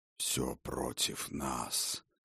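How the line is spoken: Quiet speech. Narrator (Russian): негромко сказал Ергохор

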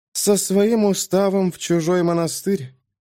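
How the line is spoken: Mutter. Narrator (Russian): пробормотала Кара

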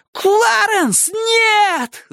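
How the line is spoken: Yelling. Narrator (Russian): завопил Майки

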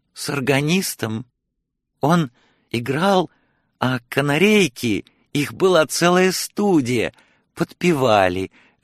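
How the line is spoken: Joyful old woman exclaiming. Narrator (Russian): радостно воскликнула старуха

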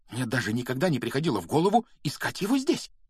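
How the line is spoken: Excited whisper. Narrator (Russian): взволнованно прошептала она

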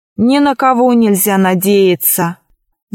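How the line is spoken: Sighing. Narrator (Russian): вздохнув, произнес Ричард

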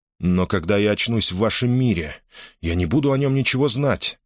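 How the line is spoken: Plain. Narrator (Russian): сказал он

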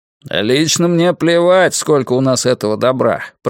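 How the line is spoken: Grumbling. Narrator (Russian): проворчал Док

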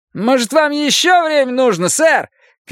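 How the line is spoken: Distant shout from gallery. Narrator (Russian): крикнул кто-то с галерки

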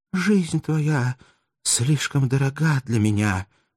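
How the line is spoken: Weak sad voice. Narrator (Russian): прибавила она слабым печальным голосом

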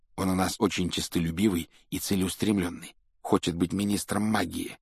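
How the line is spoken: Low-voiced explanation. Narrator (Russian): объяснил Рон друзьям вполголоса

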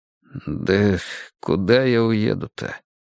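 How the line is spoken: Gruff mutter. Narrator (Russian): буркнул Николай Степанович

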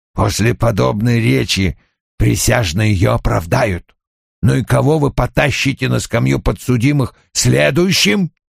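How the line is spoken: Through gritted teeth. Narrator (Russian): сквозь зубы произнес

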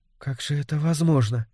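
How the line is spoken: Quiet question. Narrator (Russian): негромко спросила Доркас

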